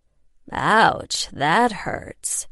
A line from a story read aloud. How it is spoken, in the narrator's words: he drawled